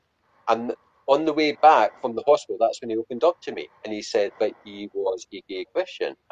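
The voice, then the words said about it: Appealing regional accent. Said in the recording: “I could listen to your accent all fucking day ... those accents are fucking awesome”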